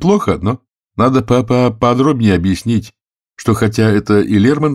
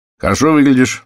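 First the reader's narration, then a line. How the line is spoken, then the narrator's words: Cheerful. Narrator (Russian): весело сказал он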